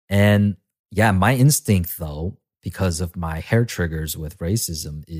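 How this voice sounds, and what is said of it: Usual voice. Nothing is said of it.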